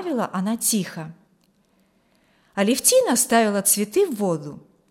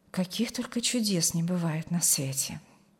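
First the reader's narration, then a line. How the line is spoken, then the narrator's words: Quiet, emotional remark. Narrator (Russian): Не сдержавшись под натиском эмоций, негромко промолвила Алевтина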